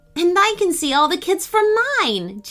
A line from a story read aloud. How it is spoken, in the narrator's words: Jane exclaimed